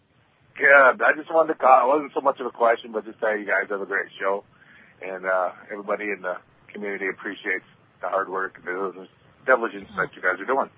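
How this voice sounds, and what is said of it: Northern Midwestern American accent. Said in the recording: “You sound like you're from Michigan or somewhere. ... You got that little accent going on, I can tell. It's some northern shit. It's like Ohio or Michigan or Minnesota.”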